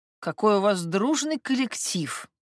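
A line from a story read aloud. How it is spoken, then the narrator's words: Muffled words through teeth. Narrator (Russian): процедила тетка из своего енотового воротника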